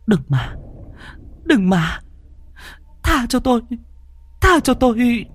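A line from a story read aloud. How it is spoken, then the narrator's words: Whimpering, near tears. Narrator (Vietnamese): Miệng của Thi Bân mếu máo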